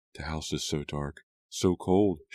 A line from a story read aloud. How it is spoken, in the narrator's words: she whispered